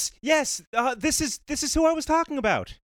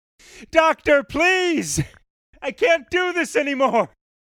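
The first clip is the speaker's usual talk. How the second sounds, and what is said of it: Shouting loudly. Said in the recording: “keep shouting!”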